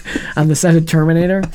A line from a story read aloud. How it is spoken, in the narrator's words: I yelled at a guy once